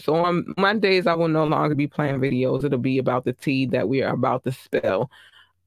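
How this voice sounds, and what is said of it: Slightly hoarse, strained voice. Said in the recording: “I do feel like I'm losing my voice a little bit”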